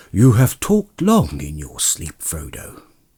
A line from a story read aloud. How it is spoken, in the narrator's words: said Gandalf gently